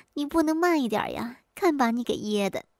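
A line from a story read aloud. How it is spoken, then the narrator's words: Laughing. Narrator (Chinese): 兰兰忍不住笑出声来说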